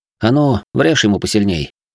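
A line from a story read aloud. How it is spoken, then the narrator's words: Quiet. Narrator (Russian): негромко произнес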